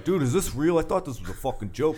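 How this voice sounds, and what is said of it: Imitates another person's voice. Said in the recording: “you do a good Don impression.”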